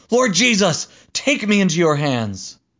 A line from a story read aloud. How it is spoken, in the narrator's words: While the stones were pummeling Stephen, he cried out, saying